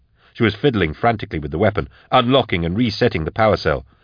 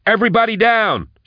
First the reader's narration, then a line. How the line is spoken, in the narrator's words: she yelled